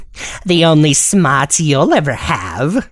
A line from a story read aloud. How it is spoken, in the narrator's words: Snively said with a sneer